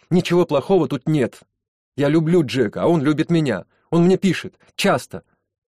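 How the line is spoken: Shouted. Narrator (Russian): она выкрикнула

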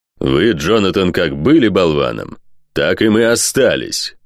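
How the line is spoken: Growling reply. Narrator (Russian): зарычал в ответ Дорсет

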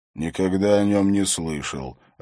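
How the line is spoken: Hoarse voice. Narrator (Russian): ответил хриплый

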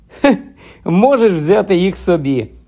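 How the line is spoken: Laughing. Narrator (Ukrainian): розсміявся Гаррі, побачивши Ронів подив

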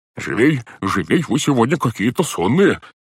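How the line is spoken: Exclaimed. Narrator (Russian): воскликнул дядя Монти

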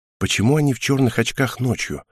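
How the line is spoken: Quiet question. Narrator (Russian): тихо спросила меня Хел

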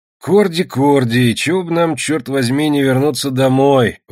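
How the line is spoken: Grumbling. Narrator (Russian): ворчал лебедь

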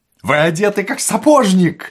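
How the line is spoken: Cheerful chatter. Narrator (Russian): радостно болтал Остап

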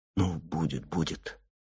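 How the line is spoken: Whispered. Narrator (Russian): Только шептал

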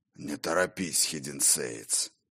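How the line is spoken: Hoarse voice from behind. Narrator (Russian): Раздалось за спиной хриплое

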